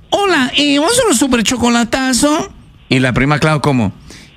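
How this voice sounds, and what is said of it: Imitates another person's voice. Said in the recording (Spanish): “Y la Choco suena así.”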